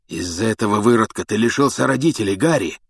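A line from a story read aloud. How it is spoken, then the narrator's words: Hoarse rasp. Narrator (Russian): прохрипел Блэк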